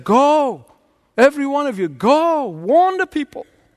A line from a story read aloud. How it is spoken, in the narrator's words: the ringmaster yelled out, he said